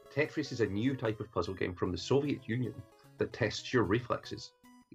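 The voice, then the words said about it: Speaks with a noticeable accent. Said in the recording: “his awesome accent”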